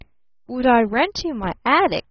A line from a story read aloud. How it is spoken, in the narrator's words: stammered Barton